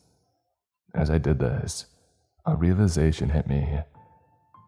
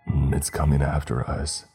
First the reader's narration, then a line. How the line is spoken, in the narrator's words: he muttered his final words